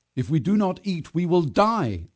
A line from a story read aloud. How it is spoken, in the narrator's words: shouted